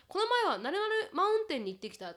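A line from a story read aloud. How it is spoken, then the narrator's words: Plain. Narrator (Japanese): と言った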